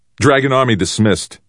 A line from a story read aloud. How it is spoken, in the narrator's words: he shouted immediately